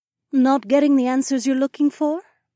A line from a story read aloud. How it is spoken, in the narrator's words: Emma asked in her elegant accent